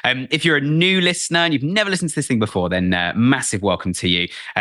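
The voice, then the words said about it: Posh British accent. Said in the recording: “I'm based here in the UK, as you can probably tell by my posh accent ... if you're American, you guys will think we're very posh”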